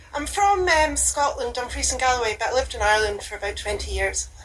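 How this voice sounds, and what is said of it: Lovely Scottish accent. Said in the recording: “It's a lovely accent. Very nice.”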